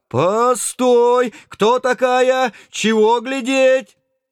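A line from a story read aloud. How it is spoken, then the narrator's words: Frightened yell. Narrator (Russian): тоже испуганно заорал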